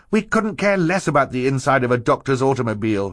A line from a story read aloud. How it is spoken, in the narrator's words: Violet said impatiently